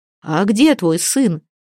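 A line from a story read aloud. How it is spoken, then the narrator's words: Exclamation. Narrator (Russian): Готов был воскликнуть Гельд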